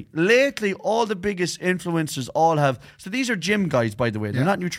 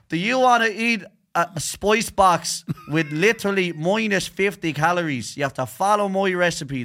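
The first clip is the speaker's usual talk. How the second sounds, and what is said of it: Mock Dublin accent, gym influencer. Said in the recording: “Why do they all have Dublin accents?”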